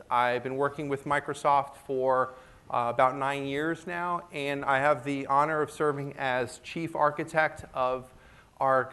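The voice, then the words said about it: American English accent. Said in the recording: “I guess you can gather from my accent, I come from the US.”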